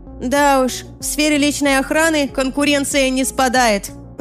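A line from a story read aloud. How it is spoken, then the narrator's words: Shouting over music. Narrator (Russian): прокричала я сквозь музыку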